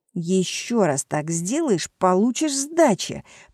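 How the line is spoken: Hiss. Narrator (Russian): прошипел я

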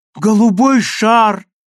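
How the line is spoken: Joyful shout. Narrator (Russian): радостно закричала она

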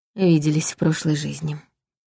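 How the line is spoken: Quiet. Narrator (Russian): негромко произнесла я

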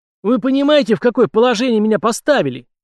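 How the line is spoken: King yelling. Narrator (Russian): орал в своем кабинете король Франции на руководителей своих спецслужб

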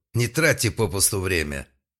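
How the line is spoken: Sudden sharp shout. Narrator (Russian): Клиент вдруг прикрикнул

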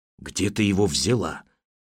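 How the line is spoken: Whispered question. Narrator (Russian): шепотом спросил Гриша

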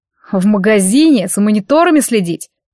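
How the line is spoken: Snorted. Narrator (Russian): фыркнул Штык

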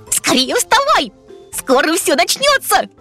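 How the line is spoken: Shout. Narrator (Russian): крикнул Трим

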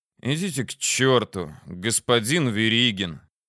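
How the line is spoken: Tired snapping retort. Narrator (Russian): устало огрызнулся я в ответ

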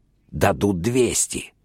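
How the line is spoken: Whisper. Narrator (Russian): зашептал переводчик

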